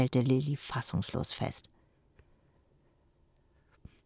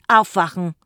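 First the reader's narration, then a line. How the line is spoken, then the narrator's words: Bellowing. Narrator (German): brüllte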